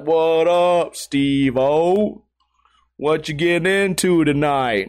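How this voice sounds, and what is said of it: Slow, strong New Orleans accent. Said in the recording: “He's from, like, New Orleans. He has a super strong accent. He talks slow.”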